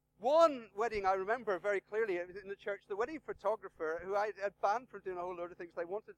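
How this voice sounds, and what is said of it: Northern Irish accent. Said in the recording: “my most polite Northern Irish accent”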